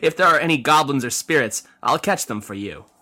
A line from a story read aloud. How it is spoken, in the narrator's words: Yin replied with a laugh